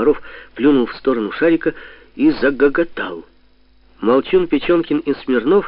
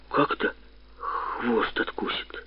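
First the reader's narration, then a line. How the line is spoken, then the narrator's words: Stammering question. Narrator (Russian): спросил, заикаясь, молчун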